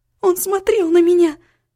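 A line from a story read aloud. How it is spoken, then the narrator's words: Cry. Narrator (Russian): вскрикнула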